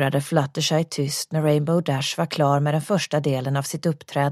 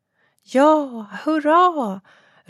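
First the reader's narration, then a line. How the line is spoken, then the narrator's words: Soft cheer. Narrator (Swedish): ropade lågmält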